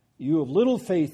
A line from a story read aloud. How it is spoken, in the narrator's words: he said